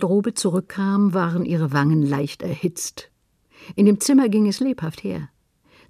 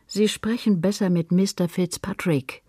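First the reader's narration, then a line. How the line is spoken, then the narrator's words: Plain. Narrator (German): sagte Mr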